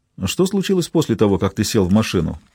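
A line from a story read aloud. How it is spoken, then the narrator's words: Plain. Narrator (Russian): спросил Ричард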